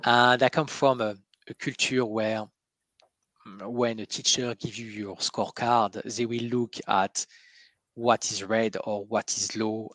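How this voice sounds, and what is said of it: French accent. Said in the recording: “I'm French, you can hear the accent.”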